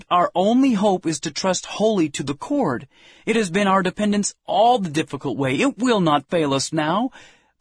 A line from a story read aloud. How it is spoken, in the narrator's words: Then we exclaimed